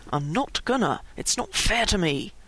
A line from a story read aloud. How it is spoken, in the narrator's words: Finally JC said softly and through gritted teeth